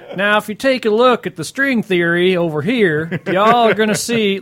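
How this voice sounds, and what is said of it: Hick Southern accent. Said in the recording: “come from the hick south”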